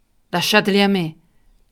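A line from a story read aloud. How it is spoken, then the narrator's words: Shrill shout over uproar. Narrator (Italian): gridò allora Hop Frog, e la sua voce stridula dominava il tumulto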